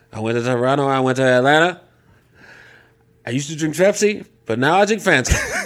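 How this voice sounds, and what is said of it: Imitates another person's voice. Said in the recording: “my bad impersonation”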